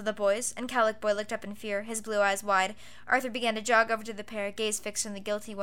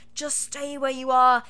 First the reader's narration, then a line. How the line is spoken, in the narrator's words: pleaded silently